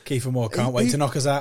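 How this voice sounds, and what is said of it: Thick Welsh Swansea accent. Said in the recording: “that thick Swansea accent you got there”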